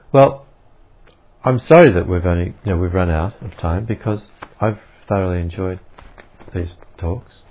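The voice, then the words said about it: Australian accent. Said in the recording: “the boring old Australian accent”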